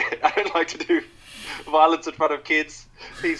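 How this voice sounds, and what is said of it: Usual voice. Nothing is said of it.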